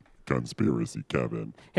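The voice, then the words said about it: Deep low-pitched voice. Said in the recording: “deep voice”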